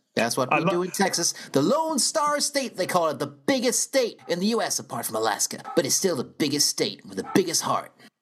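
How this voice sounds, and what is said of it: Put-on Texan accent. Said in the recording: “I was waiting for you to do your Texan ... this is a Texas accent ... that's exactly how they say two in Texas ... we sometimes do bad accents”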